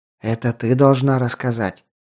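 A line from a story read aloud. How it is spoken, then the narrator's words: Whispered reply. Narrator (Russian): ответил также шепотом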